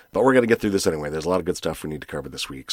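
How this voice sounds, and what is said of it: Sick, flu-affected voice. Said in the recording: “I'm feeling a little under the weather ... I caught some sort of a flu. You could probably hear it in my voice.”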